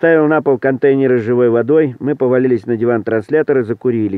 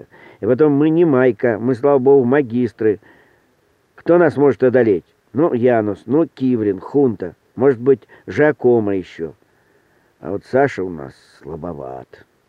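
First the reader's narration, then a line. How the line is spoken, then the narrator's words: Apologetic. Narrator (Russian): извиняющим голосом сказал Эдик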